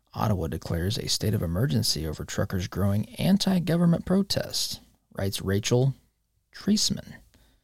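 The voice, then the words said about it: Imitates an NPR radio announcer voice. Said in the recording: “I will do my best NPR voice”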